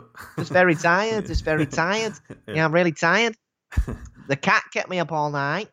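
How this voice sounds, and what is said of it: Put-on northern English accent. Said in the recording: “That's a nice northern accent.”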